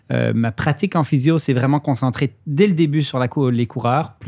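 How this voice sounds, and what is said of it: Mixed Swiss and Québécois French accent. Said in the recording (French): “J'ai un petit accent bizarre, même si on est au Québec, parce que je suis suisse d'origine ... mes deux accents mélangés, ça fait quelque chose de spécial ... mon accent suisse revient fréquemment”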